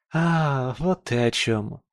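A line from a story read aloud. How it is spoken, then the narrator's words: Girl's sigh. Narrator (Russian): Вздохнула девушка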